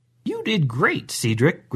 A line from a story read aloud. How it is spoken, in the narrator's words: Grandma said rather cheerfully